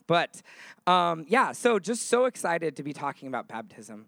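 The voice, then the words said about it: Slightly hoarse, cracking voice. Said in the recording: “if my voice cracks and I get real high-pitched ... I could tell my voice was a little bit gone”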